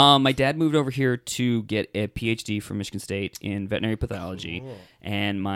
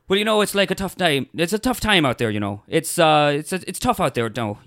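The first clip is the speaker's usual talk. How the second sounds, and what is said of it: Put-on West of Ireland accent. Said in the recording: “hit us with that Irish accent ... my best one is West of Ireland one, because I just mimic”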